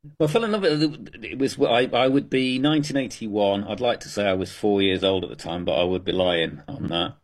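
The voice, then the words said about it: Thick British accent. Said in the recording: “you've obviously got a thick British accent”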